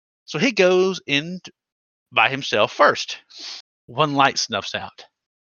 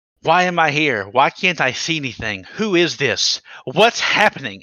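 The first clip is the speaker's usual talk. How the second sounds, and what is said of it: Raised voice, scared child character. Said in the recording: “raising my voice.”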